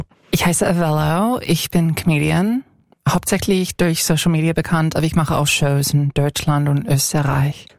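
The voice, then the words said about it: American accent speaking German. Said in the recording (German): “Du hast einen Akzent? ... Ich komme aus den USA, ich komme aus Kalifornien ursprünglich.”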